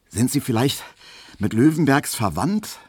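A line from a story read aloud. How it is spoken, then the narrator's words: Slightly panting question. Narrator (German): fragte Emil Kubinke, etwas keuchend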